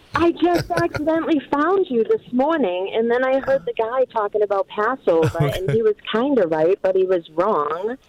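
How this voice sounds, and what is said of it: Southern drawl. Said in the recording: “I know you can tell by my southern drawl.”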